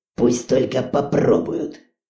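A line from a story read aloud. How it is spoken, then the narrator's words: Grumbling. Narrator (Russian): проворчал президент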